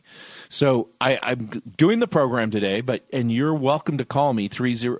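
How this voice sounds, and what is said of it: Voice lower and deeper than usual. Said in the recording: “I've sort of lowered an octave in my voice ... there's probably something wrong with me”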